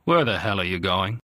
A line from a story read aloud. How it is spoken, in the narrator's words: She answered him coldly